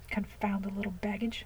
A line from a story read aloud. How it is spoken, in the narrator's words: under his breath